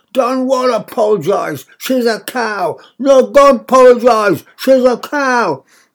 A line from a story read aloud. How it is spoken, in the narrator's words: I yelled, so that the whole of Fennington must have heard me